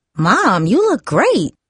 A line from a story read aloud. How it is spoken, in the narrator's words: Darcy exclaimed